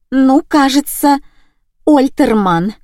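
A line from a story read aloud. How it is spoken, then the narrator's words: Trembling voice. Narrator (Russian): дрожащим голосом ответила я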